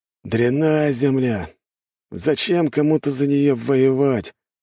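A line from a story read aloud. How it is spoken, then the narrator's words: Displeased grumbling. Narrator (Russian): ворчал недовольный колумбийский наемник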